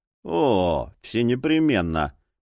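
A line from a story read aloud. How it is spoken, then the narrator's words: Grumbled. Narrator (Russian): проворчал Боул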